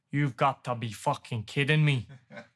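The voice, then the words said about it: Strong Irish accent. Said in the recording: “In like a real strong Irish accent.”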